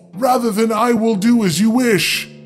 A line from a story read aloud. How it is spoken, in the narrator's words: she cried